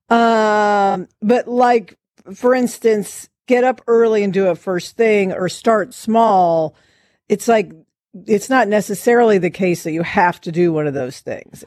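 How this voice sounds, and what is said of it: Scratchy voice, getting over cold. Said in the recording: “I have uh, a cough. I'm getting over a cold. So my voice is a little scratchy and I'm coughing.”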